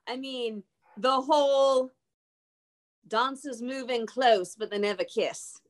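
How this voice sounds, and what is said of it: Bad put-on Australian accent. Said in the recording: “my very bad attempt at Australian. That's my hardest accent.”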